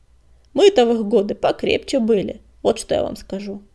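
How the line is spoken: Grumbling. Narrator (Russian): проворчал Каркун

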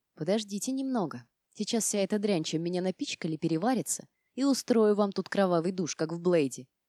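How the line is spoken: Quiet grumble to herself. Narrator (Russian): тихо пробурчала себе под нос

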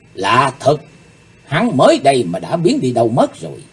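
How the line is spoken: Muttering. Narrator (Vietnamese): Cô ả lẩm bẩm

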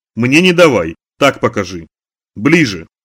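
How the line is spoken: Sharp. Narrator (Russian): резко сказала

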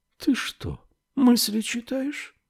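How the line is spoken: Very quiet question. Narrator (Russian): спросила она очень тихо

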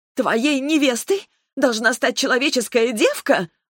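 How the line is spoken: Shrill shriek. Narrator (Russian): взвизгнула Терла

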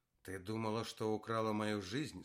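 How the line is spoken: Hoarse question. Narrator (Russian): спросила Оксана хрипло

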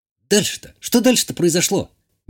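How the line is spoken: Impatient exclamation. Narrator (Russian): нетерпеливо воскликнула Иштания

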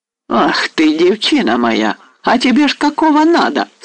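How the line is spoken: Cheerful cry. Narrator (Russian): вскрикнул весело казак

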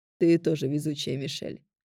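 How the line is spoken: Amused snort. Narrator (Russian): хмыкнул друг Кофис

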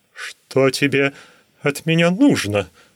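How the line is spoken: Thin whimper. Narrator (Russian): тоненько заскулил он

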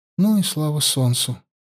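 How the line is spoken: Tired. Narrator (Russian): устало сказала Аюна

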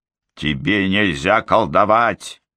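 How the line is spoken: Barked. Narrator (Russian): рявкнула Момби

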